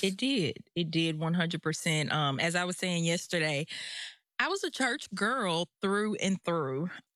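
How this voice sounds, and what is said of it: Southern American accent. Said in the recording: “I'm from Mississippi. ... you hear the Southern accent”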